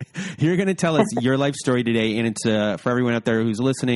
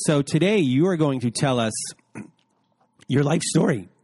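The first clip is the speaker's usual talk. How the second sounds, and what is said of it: Voice cracks. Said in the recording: “My voice cracked”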